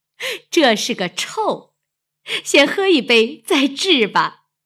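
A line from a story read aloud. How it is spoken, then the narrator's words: Laughing. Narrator (Chinese): 鸳鸯笑道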